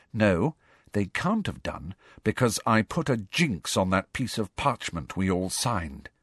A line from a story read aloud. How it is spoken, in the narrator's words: said Hermione grimly